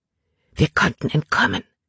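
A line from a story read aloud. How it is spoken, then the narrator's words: Whisper. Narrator (German): flüsterte sie Caleb zu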